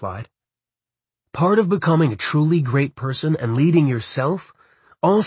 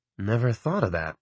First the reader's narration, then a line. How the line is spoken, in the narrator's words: I muttered